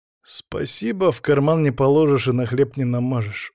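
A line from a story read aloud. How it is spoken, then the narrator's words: Weary sigh. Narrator (Russian): устало вздохнул я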